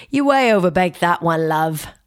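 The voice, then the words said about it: Poor Simon Cowell British accent impression. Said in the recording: “as Simon Cowell once told a contestant on American Idol ... I know that's a terrible accent.”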